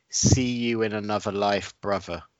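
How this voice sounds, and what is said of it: Exaggerated Scottish accent. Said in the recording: “Can you say the words in the most Scottish accent that you can?”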